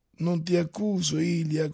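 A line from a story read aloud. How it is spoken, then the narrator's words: Gentle. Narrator (Italian): continuò Stolz dolcemente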